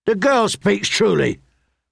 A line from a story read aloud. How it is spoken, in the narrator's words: the hound rasped